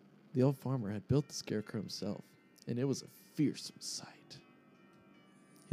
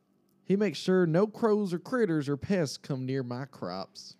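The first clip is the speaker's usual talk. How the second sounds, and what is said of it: Put-on farmer's accent. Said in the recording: “I'm going to do a farmer's accent.”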